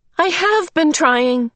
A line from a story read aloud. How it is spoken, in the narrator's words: Charles Wallace said, his voice high and troubled